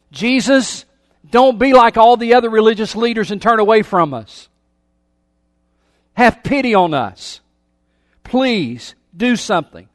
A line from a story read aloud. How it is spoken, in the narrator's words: These 10 men shouted at a distance